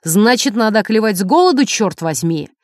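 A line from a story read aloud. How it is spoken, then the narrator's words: Husband's shout. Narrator (Russian): Муж крикнул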